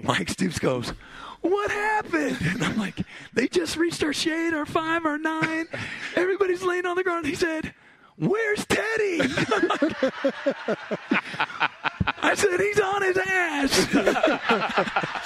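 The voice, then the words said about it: Impression of Mike Stoops. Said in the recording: “a Brent Venables, Mike Stoops impersonation, maybe not the strongest... it's probably dead on balls accurate, that impersonation that he had there... it's not as far off as you think it is”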